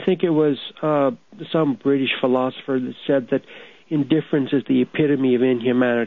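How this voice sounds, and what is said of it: Upset, agitated voice. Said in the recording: “You can tell by my voice, I'm very upset tonight”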